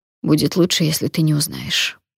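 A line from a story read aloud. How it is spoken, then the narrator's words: Flat colorless voice. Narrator (Russian): бесцветным голосом сказала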